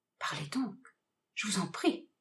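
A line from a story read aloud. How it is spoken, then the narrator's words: Murmuring. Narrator (French): murmura Camor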